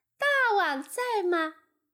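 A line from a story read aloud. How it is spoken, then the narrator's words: Calling out. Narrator (Chinese): 喊道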